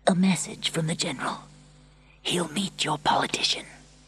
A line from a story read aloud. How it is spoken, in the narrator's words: He whispered